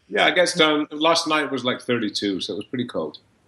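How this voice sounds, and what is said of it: Slight Scottish accent. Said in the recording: “I hear an accent. ... Originally from Scotland. ... I could do more of a Scottish accent, but I paid a lot of money to get rid of it.”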